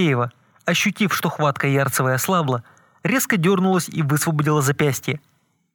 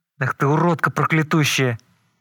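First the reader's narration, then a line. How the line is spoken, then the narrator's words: Hissed. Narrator (Russian): зашипела Ярцева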